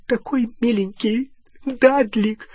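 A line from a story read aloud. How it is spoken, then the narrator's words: Muffled sobbing. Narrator (Russian): всхлипывала она, прижимаясь к его могучей груди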